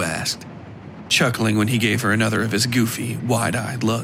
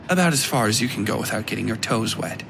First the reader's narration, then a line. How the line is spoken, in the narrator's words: replied dryly